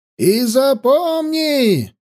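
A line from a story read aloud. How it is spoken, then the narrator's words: Shouted after someone. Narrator (Russian): закричал он вслед гонцу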